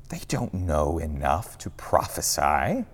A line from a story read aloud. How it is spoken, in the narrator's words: a voice whispers in Joshua's ear